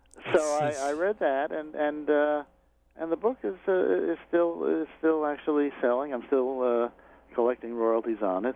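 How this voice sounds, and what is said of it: New York accent. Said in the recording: “many people have complimented my audiobook, and especially your authentic New York accent. And so, I guess I have a New York accent.”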